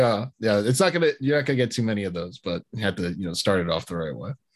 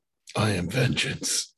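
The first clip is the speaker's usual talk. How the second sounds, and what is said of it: Gravelly Batman character voice. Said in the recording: “is ready to go in his Batman voice.”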